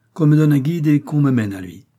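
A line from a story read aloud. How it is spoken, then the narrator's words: Imperious tone. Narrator (French): continue-t-il d'un ton impérieux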